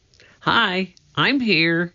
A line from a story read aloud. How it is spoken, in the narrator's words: Annie sputtered